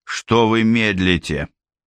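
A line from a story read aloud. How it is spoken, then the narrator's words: Strange military tone. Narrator (Russian): спросил он чужим армейским тоном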